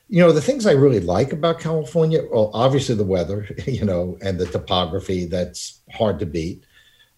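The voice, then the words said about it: New York accent. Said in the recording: “as you can tell from my accent, I'm not a native. I'm from New York”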